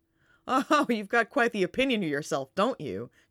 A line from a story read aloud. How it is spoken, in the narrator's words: John laughs